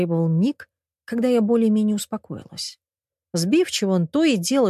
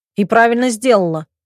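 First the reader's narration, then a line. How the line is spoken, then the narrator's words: Barked. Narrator (Russian): рявкнул брат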